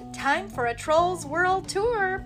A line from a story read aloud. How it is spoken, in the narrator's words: Poppy exclaimed